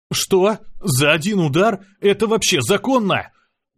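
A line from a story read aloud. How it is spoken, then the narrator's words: Desperate breathless exhale. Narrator (Russian): Выдохнул я, чувствуя, что до смерти остался всего один шаг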